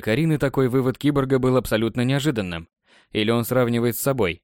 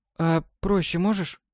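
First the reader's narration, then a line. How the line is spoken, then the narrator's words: Girl's plaintive question. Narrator (Russian): Неожиданно для себя жалобно спросила девушка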